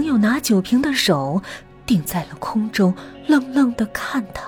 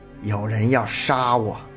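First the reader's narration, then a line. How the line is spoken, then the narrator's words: Through gritted teeth. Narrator (Chinese): 程翔咬牙道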